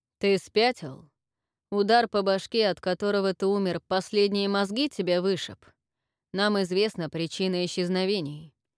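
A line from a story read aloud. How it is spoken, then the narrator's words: Clipped emphatic words. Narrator (Russian): отчеканил он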